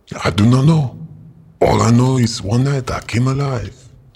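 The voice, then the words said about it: French-accented character voice. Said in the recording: “why do you sound French?”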